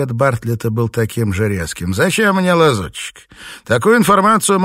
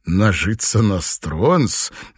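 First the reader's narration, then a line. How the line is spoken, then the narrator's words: Sarcastic laugh. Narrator (Russian): Данрос язвительно рассмеялся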